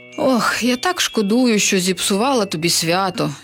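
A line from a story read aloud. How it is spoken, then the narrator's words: Sighing. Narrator (Ukrainian): зітхнула відьма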